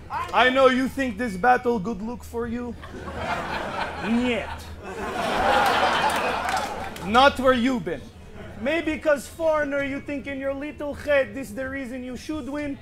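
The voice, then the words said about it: Put-on Russian accent. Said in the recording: “Since people love the Russian accent, I should try to talk like you then”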